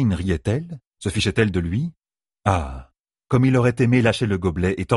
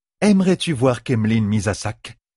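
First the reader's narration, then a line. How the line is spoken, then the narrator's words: Plain question. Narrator (French): demanda Chiein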